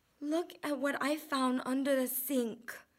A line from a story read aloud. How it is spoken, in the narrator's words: she whispered